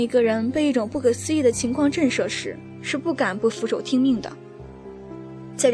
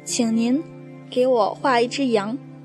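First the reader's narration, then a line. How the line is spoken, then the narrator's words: Slow, earnest repetition. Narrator (Chinese): 他好像当做一件大事似的，慢慢的对我重复说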